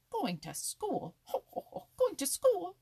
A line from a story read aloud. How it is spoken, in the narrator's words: exclaimed Happy Jack